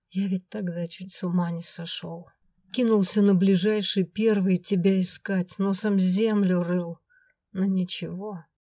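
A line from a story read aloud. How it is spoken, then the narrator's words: After deep sigh. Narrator (Russian): глубоко вздохнул и проговорил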